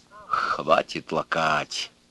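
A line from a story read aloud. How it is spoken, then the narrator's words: Strained angry voice. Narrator (Russian): сказал дядя Гриша сдавленным злым голосом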